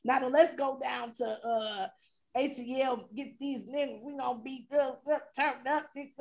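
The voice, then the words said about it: Put-on casual slangy accent. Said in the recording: “What is this accent? ... this is my easy accent ... This is my easy vernacular.”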